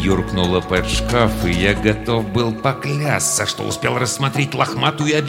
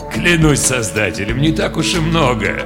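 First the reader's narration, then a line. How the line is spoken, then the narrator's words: Laughing. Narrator (Russian): рассмеялся тот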